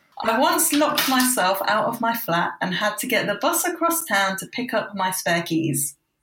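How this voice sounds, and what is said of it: Deadpan flat delivery. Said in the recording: “deadpan voice”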